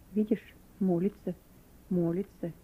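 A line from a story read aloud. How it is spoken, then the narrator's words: Said quietly. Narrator (Russian): кто-то из заключенных тихо сказал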